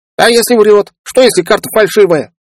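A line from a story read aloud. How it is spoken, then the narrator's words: Squeaky voice. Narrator (Russian): пропищал кто-то из карликов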